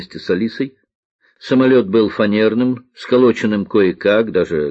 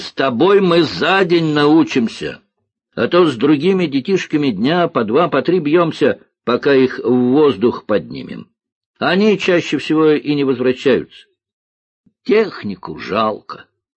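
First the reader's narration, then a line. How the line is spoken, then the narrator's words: Shouting over engine noise. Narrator (Russian): Сквозь шум пропеллера он крикнул Алисе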